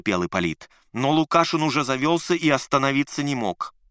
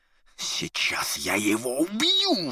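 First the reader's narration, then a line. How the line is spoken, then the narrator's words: Furious rasp. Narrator (Russian): в ярости прохрипел Ипполит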